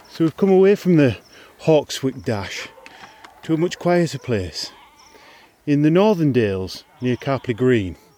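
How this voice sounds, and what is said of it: Slightly out of breath. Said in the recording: “I'm slightly out of breath”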